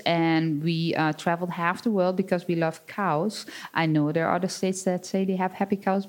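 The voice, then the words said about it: Dutch accent. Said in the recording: “My accent, like, you wouldn't believe it, but I'm not really from Wisconsin... I'm born and raised on a 60-cow dairy farm in the Netherlands”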